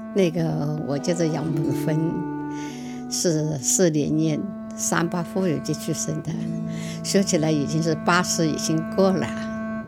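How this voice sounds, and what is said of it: Hunan-accented non-standard Mandarin. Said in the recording (Chinese): “湖南口音对吧？你能听得出吧？...我这个普通话就是不标准...塑料普通话。”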